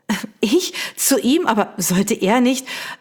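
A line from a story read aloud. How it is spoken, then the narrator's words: Stammering. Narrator (German): stammelte sie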